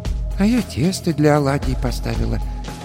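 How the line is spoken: Quiet old woman. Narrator (Russian): тихо сказала баба Маша

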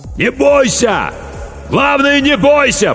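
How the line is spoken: Shout drowned by noise. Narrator (Russian): прокричал капитан, но его слова потонули в шуме

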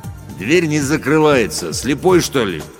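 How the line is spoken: Deep bass guard behind. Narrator (Russian): пробасил за моей спиной охранник Рустам

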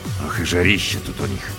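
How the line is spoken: Grumbling. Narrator (Russian): проворчал

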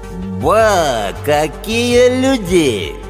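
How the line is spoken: Mocking drawl. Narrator (Russian): Глумливо протянул меломан, скалясь щербатой улыбкой

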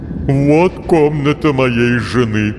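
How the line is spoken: Gloomy. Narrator (Russian): мрачно сообщил мистер Жижа

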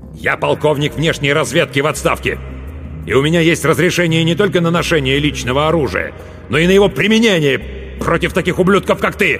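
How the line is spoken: Loud bark. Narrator (Russian): громко рявкнул

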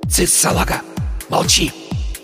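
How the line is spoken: Hissed. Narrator (Russian): прошипел Порошок

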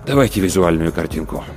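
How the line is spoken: Sighing. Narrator (Russian): Рудольф Терентьевич вздохнул и сказал

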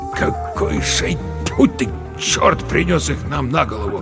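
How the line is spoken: Muttered. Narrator (Russian): пробормотал Верещагин

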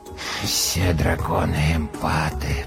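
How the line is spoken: Muttered. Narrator (Russian): пробормотал он

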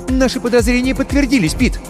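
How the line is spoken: Rapid chatter. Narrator (Russian): затараторила она

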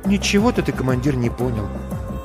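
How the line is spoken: Quiet. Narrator (Russian): тихо говорит Маринка

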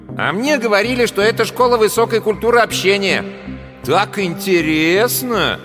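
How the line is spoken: Said loudly. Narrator (Russian): громко сказал в коридор

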